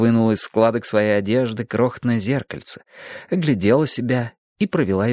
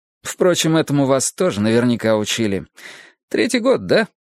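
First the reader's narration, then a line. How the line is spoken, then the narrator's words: Laughing. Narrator (Russian): Она засмеялась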